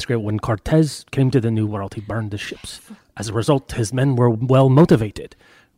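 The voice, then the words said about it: Put-on accent drifting into pirate voice. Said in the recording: “now I'm turning into a bit of a pirate, as all my accents do if I go on beyond about 4 syllables”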